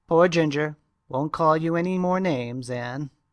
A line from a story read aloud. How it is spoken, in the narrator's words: he said mournfully